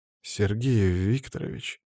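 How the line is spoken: Strange voice. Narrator (Russian): произнес он странным голосом

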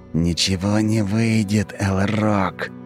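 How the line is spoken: Angry hiss. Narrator (Russian): зло прошипел Тиракл

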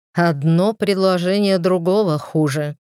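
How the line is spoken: Smirking scoff. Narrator (Russian): хмыкнул Аргас с ухмылкой

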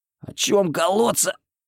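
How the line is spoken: Hoarse, breathless. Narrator (Russian): прохрипел я, переводя дух

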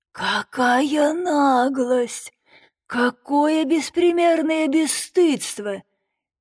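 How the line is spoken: Muffled hoarse broken howl. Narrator (Russian): глухо кинул он с хриплым прерывистым воем

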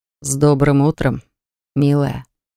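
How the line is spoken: Velvety voice. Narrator (Russian): проговорил он бархатным голосом

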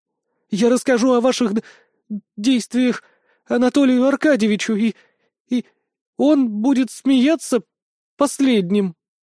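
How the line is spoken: Strained, forced out. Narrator (Russian): выдавила из себя Виктория

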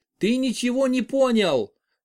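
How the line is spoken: Shout breaking into sobs. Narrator (Russian): прокричала она и внезапно зарыдала навзрыд

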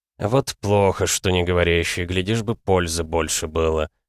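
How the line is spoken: Good-natured grumble. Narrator (Russian): беззлобно проворчал Крайван

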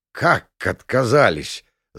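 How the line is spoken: Disbelieving growl. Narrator (Russian): зарычал Загребалов, не веря своим ушам

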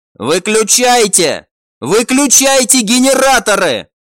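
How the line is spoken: Shouting leader. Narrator (Russian): прокричал глава

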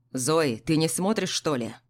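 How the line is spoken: Stern grandfather asking. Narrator (Russian): строго спросил дедушка

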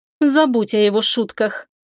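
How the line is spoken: Icy tone. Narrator (Russian): Аделия произнесла ледяным тоном

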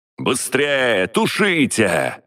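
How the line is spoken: Yelling. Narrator (Russian): заорал я

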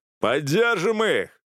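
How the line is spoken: Yelled again. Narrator (Russian): заорал в который раз

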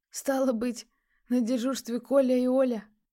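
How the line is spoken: Chuckling. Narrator (Russian): посмеялся Дорофеев

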